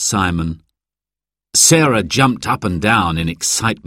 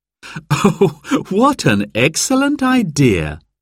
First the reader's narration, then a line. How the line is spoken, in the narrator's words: laughed Mum